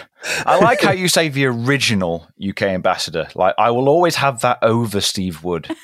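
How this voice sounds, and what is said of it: Distinguished British accent. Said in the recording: “our original British ambassador ... You're sounding very distinguished, as always. I envy your accent.”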